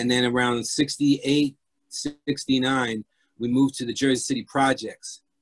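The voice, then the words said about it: Urban New Jersey accent. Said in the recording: “you can hear my accent is more very urban”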